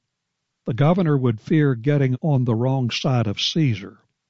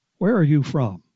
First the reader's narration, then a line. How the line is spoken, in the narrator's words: asked uneasily